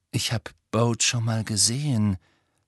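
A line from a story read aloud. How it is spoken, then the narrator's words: Slow speech. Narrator (German): sagte er langsam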